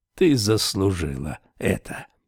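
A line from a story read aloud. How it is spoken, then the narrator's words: Almost calm. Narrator (Russian): проговорил он почти спокойно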